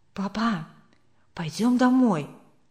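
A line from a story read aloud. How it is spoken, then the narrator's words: Whisper. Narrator (Russian): шепнул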